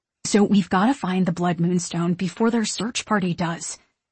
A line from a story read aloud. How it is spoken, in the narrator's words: Isabella whispers urgently